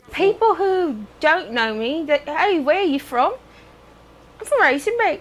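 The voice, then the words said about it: British-sounding accent. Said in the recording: “This is a Houston mom with a British accent ... how my mom got that accent ... Oh, not from England ... How'd you talk like that?”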